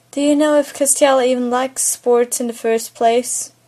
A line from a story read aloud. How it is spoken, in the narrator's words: Sam says